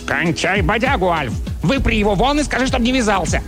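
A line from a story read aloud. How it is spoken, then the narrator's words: Barked. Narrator (Russian): Чарли рявкнул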